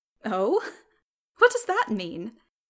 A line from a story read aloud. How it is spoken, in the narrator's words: laughed